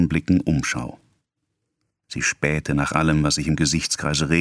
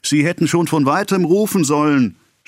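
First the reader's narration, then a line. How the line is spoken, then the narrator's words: Shouting. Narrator (German): schrie er ihr zu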